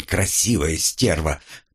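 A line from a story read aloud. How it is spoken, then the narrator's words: Relieved snort. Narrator (Russian): как мне показалось, с облегчением хмыкнул тот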